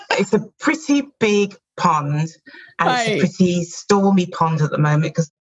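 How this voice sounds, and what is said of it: British accent. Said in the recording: “as you can tell from my accent, or maybe you can't, I'm from the UK”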